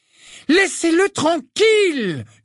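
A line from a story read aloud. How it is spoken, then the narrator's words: Yelled. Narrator (French): hurla Lily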